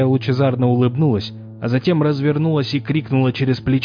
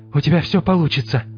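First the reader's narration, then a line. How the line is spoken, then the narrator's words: Breathed out. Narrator (Russian): выдохнула Флориан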